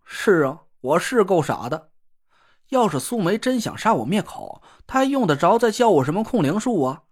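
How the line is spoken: Awkward laugh. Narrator (Chinese): 我尴尬的讪笑了一声

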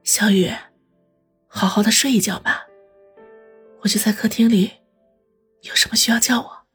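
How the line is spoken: Gentle, soft. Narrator (Chinese): 方心 柔声地说道

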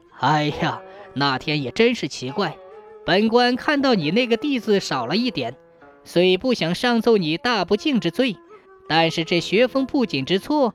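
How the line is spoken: Speaking with a laugh. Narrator (Chinese): 主考官笑着说

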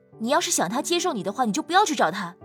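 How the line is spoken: Loud stern command. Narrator (Chinese): 萧凌夏大声喝止道

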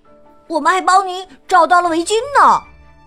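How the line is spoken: Children shouting together. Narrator (Chinese): 小伙伴们嚷道

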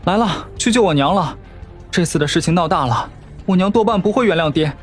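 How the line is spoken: Panting, playful question. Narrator (Chinese): 子纯喘息着，顽皮问道

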